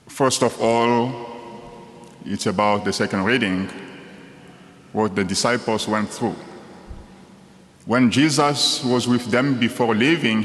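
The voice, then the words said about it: Congolese-accented English. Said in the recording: “originally from the Democratic Republic of the Congo, one of the countries in the center of Africa. And I believe you can tell just by my accent.”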